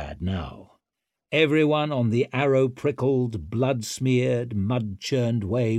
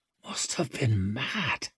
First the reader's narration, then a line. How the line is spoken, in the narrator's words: he whispered